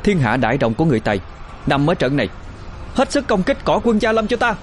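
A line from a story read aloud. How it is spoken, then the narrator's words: Shouting. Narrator (Vietnamese): Thu Linh hét lên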